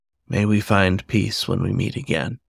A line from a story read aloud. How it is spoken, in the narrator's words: Gently, in her own tongue, he whispered